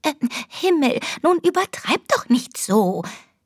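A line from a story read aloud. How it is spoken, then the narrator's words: Squeaky voice. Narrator (German): piepste die Leseratte Marianne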